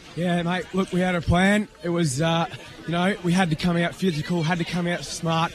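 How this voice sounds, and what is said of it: Hoarse, strained voice. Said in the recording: “I've already lost my voice”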